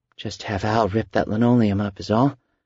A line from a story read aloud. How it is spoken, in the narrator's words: she muttered